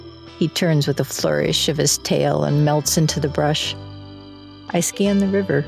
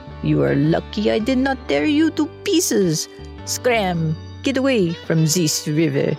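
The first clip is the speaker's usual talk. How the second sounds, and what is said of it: Cartoon character in a foreign accent. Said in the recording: “those cartoons where the little scamp calls out in a foreign accent”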